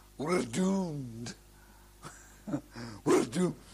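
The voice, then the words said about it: Put-on Scottish accent. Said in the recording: “you'll hear a certain Scotsman saying ... Bit too out your accent”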